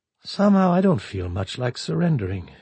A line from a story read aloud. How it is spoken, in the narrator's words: he said almost calmly